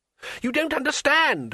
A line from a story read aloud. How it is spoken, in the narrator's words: screamed the tourist above the terrible noise of the wingbeats